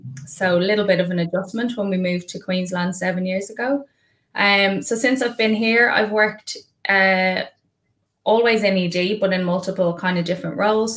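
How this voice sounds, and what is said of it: Irish accent. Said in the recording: “In case you couldn't tell by the accent, I started my career in Ireland.”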